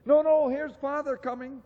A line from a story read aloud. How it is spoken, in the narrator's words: cried the two young Cratchits